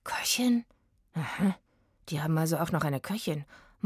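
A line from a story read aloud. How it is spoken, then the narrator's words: Muttering to himself. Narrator (German): murmelte Oliver mehr zu sich selbst als zu Eggy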